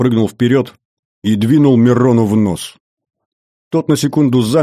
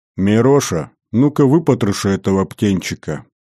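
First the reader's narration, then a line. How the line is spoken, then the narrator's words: Falsely affectionate order. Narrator (Russian): фальшиво-ласково приказал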